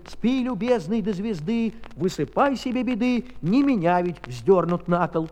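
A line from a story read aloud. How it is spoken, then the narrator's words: Angry neighing horse shouting. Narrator (Russian): конек над ним заржал и крикнул голосом сердитым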